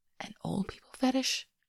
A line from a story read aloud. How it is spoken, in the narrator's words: Hollander whispers